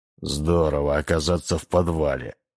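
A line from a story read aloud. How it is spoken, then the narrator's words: Grumble. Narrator (Russian): буркнул Дуайт в сторону Анджела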